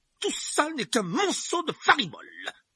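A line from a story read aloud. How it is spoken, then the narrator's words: Exclaimed. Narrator (French): s'exclama l'oncle Vernon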